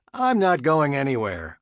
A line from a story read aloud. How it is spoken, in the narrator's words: Adam exclaimed